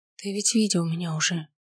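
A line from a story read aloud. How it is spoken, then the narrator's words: Whispered. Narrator (Russian): прошептала я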